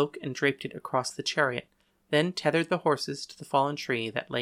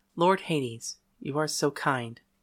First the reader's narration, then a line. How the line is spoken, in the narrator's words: she said, and her voice was like bells tinkling softly